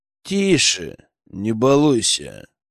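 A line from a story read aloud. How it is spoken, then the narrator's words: Soothing through gritted teeth. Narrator (Russian): Сквозь зубы попытался успокоить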